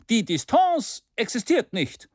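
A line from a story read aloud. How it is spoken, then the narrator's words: Forceful shout. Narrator (German): rief Maston energischer als die anderen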